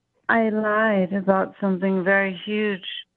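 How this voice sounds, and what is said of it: Sad, subdued voice. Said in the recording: “You sound a little sad.”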